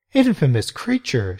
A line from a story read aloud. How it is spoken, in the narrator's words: exclaimed